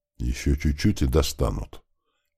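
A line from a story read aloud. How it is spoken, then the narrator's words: Whispered through clenched teeth. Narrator (Russian): стиснув зубы, прошептал паренек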